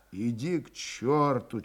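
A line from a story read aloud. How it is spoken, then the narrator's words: Barely audible whisper. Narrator (Russian): чуть слышно шептал Григорий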